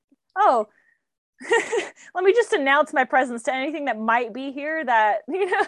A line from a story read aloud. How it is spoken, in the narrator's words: starts like yelling